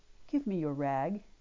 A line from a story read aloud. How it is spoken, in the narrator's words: he said so gently